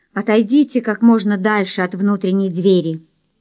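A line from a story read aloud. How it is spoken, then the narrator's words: Reluctant, heavy sigh. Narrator (Russian): Доминик тяжело вздохнул и неохотно произнес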